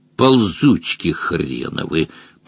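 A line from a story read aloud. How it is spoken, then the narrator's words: Mutter. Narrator (Russian): пробормотал выдор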